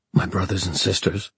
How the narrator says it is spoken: Julian began, his voice tight

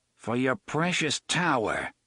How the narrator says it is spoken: Eddie sneered

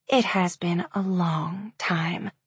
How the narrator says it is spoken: she said quietly

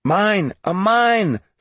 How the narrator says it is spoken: someone shouted

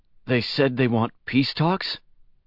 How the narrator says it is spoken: he asked anxiously

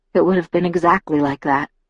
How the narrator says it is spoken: I muttered

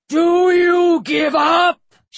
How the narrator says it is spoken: Shesmu bellowed

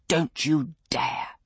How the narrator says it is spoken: the missus hissed

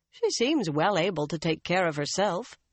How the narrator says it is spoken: Birgitta said dryly

